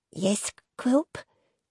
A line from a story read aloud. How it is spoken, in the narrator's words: she replied meekly